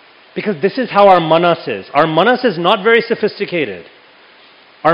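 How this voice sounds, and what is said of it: Usual voice. Nothing is said of it.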